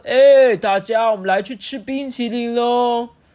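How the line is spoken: Shouting. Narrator (Chinese): 外公大喊说

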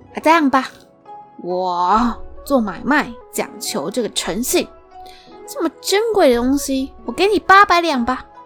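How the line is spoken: Shocked, serious. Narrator (Chinese): 收起笑脸，他震惊地说

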